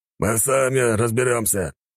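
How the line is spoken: Somewhat rude reply. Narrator (Russian): немного грубо ответил воин

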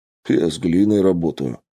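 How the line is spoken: Snorting chuckle. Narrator (Russian): хмыкнул Филин

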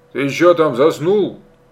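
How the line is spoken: Sudden shout. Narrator (Russian): неожиданно крикнул отец

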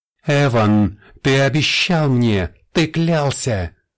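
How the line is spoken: Shouting. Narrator (Russian): кричала Фенелла

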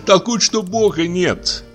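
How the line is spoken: Laughing while speaking. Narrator (Russian): продолжала Иловайская, тоже засмеявшись

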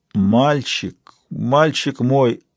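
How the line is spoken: Quavering, tearful. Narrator (Russian): выговорил он дребезжащим голосом, и его запавшие глаза наполнились слезами

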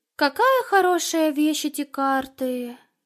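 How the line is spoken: Sighing. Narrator (Russian): вздохнула Алена

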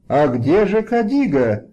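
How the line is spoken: Alarmed shouting. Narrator (Russian): закричали встревоженные царевны

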